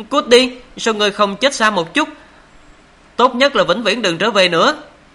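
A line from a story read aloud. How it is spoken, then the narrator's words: Furious hissing. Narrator (Vietnamese): Quê quá hóa giận, Long Nữ giận dữ rít lên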